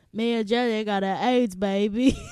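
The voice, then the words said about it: Slow Southern Forrest Gump voice. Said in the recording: “my favorite Forrest Gump impression”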